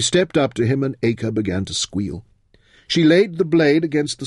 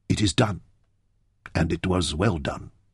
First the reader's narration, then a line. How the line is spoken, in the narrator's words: he said softly